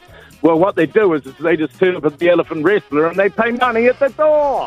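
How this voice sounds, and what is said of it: Usual voice. Nothing is said of it.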